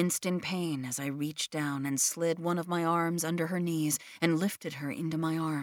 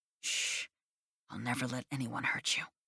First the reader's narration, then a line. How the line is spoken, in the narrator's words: I whispered into her ear